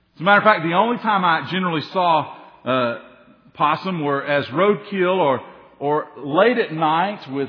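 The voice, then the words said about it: Tennessee Southern accent. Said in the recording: “I'm a Tennessee boy. And I know when new people come, they're always trying to figure out that accent... they said, "Oh, we knew you weren't from here."”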